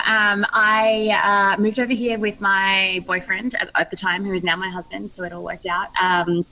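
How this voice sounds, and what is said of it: Australian accent. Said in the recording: “is not an American accent. That's an Australian accent.”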